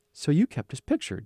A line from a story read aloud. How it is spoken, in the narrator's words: Joseph said softly